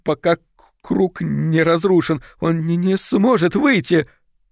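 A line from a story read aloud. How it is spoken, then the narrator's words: Sobbing in terror. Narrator (Russian): Фиона, всхлипывая от ужаса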